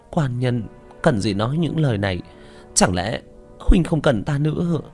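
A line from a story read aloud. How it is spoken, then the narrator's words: Sudden choked trembling voice. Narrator (Vietnamese): Bích Thanh đột nhiên nghẹn ngào run run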